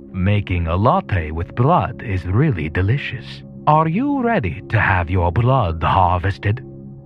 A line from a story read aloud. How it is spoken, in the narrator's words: laughed in a creepy voice